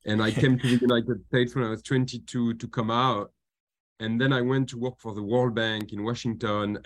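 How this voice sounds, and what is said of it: Slight French accent. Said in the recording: “I'm a Frenchman. You might have noticed it from my very slight accent.”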